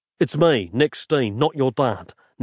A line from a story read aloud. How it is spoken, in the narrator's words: Nick said gruffly